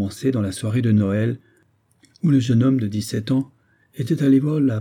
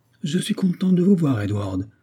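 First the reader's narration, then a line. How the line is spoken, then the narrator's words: Exclaimed. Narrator (French): s'écria Miss Arundel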